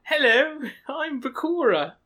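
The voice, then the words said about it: Put-on British accent. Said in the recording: “He's not actually British. ... That's not even ... actual accent.”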